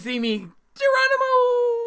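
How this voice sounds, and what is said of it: Playful impression of an icicle. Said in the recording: “my impression of an icicle”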